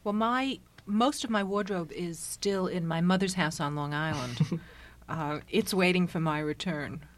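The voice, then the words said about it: New York accent. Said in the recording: “your accent makes it obvious to most of our listeners, I'm sure, that you are the representative of New York”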